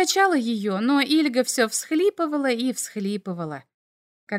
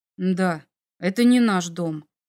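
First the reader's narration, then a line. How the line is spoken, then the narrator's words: Muffled, boy. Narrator (Russian): глухо произнес мальчик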